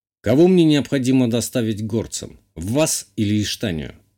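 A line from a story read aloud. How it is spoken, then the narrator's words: Plain. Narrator (Russian): спросил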